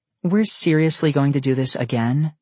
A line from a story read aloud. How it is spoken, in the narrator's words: Elle said nervously